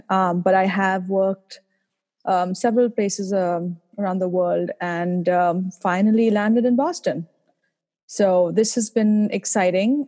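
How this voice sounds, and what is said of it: Indian English accent. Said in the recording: “I'm originally from India, as you might be able to tell from my accent.”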